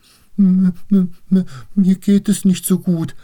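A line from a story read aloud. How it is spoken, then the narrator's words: Stammering. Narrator (German): stammelte Sieglinde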